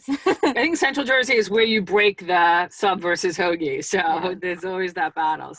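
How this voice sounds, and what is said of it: East Coast American accent. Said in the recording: “as you can probably tell from my accent. I was originally from the East Coast”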